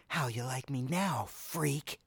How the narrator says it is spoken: hissed

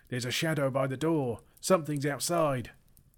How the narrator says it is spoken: one of the goblins inside shouted

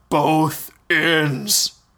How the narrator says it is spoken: The giant repeated in his booming voice

